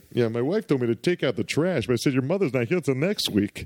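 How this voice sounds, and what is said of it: Old-school sitcom character voice impression. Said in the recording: “his voice is amazing ... old school, like, ah, boy, the wife kind of, you know, sound to his voice ... I can't say them in my normal voice.”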